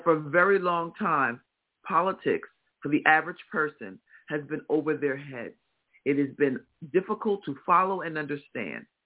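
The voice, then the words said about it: Midwestern American accent. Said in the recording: “Your Midwestern accent? ... It's my Midwestern accent.”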